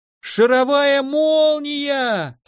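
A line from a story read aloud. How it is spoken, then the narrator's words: Impulsive yell. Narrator (Russian): Сам не знаю зачем, заорал я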